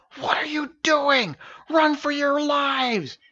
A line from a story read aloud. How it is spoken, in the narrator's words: hissed the giant warrior boar from behind the tree line